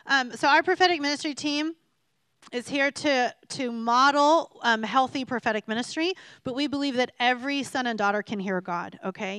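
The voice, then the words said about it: Scratchy, hoarse voice. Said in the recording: “I'm not going to lose my voice, but it's scratchy”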